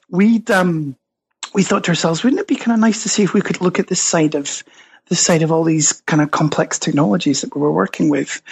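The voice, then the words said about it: Scottish accent. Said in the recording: “you can probably tell from my accent, I'm Scottish originally”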